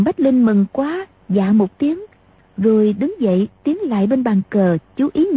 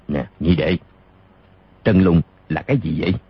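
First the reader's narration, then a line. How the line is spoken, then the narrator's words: Soft question. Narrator (Vietnamese): Đặng Bách Xuyên khẽ hỏi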